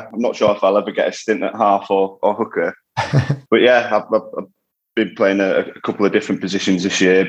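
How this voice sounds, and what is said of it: Non-Midlands English regional accent. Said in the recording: “people listening will, will, hear your accent, and you, are clearly not a Midlander”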